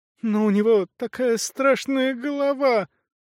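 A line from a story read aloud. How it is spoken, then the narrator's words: Sobbing small child. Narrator (Russian): зарыдала крошка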